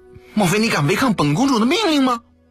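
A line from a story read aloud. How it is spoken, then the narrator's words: Flat angry rebuke. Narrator (Chinese): 南宫面无表情地怒声斥道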